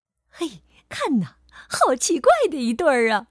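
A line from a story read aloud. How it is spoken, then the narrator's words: Mocking laughter. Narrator (Chinese): 长颈鹿们开始嘲笑起来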